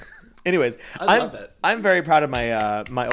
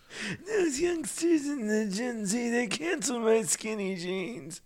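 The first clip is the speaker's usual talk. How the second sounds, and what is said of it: Put-on old man voice. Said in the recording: “old man voice”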